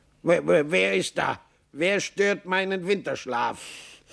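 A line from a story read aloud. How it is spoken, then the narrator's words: Gruff call. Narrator (German): eine Stimme rief brummig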